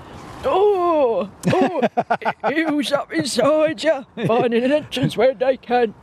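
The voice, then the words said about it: Mighty Boosh character voice. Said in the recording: “the Mighty Boosh voice”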